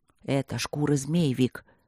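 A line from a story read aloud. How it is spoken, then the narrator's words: Whisper. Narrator (Russian): прошептал в ответ Мартин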